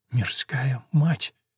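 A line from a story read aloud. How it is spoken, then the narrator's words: Stunned, grateful whisper. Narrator (Russian): Он же ошеломленно и благодарно прошептал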